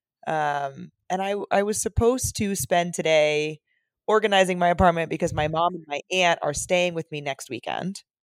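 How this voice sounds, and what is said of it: Congested, sniffly head-cold voice. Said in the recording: “I am a little under the weather today... I have just like a little sniffly, a little head cold situation going on. People can probably hear it in my voice a little bit.”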